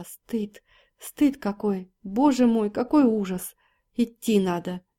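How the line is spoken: Sobbing mutter. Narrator (Russian): Плакала навзрыд Валя, деканова жена, и сквозь слезы бормотала

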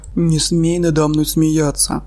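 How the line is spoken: Growl. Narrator (Russian): Рыкнул он

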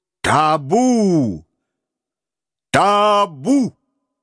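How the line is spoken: Thunderous shout over crowd. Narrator (Russian): покрывая шум толпы, он громовым голосом крикнул

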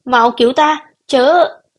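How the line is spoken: Joyful shout. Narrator (Vietnamese): Phùng Kiều mừng rỡ hét lên

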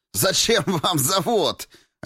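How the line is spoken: Sharp nervous laugh. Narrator (Russian): резко и тоже нервно рассмеялся Дроздовский

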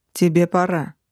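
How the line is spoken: Icy curt. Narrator (Russian): Ледяным тоном бросил Демонессе высший

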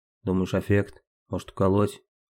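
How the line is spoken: Low mutter. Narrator (Russian): Старший пробормотал в полголоса

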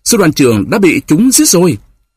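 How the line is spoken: Shouting while riding. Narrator (Vietnamese): Demidov phi ngựa vừa kêu lên

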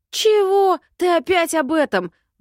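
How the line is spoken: Young man roaring. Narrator (Russian): взревел парень

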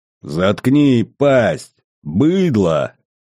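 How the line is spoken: Growl. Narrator (Russian): прорычал герцог

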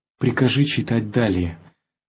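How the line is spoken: Calm reply. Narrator (Russian): отвечал спокойно Савельич

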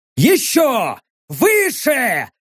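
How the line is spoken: Barked. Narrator (Russian): рявкнул я

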